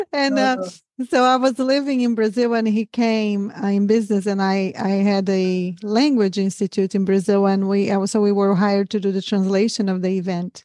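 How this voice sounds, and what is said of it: Brazilian accent. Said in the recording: “I'm from Brazil originally. That's where the accent, it ain't from Texas”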